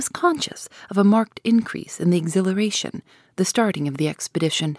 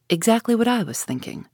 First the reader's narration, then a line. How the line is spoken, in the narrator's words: said Ash